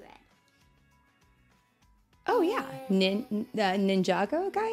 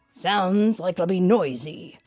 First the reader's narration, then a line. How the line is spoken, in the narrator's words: Sam growled